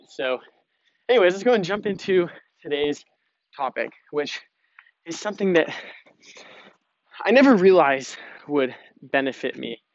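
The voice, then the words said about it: Slightly out of breath. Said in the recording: “out of breath, ... I'm carrying a 30-pound suitcase”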